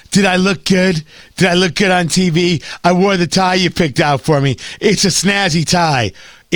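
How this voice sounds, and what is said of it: Imitated voice with head-cold congestion. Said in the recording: “my impression of him ... he's Rick Moranis, but he has a cold ... I don't think it's accurate ... Rick Moranis with a head cold”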